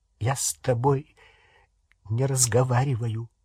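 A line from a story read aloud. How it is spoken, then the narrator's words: Strained, choked voice. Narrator (Russian): сказала она сдавленным голосом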